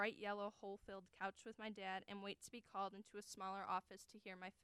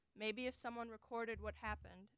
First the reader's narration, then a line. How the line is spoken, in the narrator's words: she says